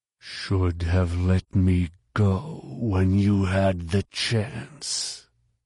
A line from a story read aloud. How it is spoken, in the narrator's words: Jason snarled